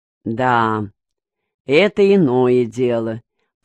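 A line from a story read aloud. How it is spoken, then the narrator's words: Understanding drawl. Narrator (Russian): понимающе протянул Вахрушка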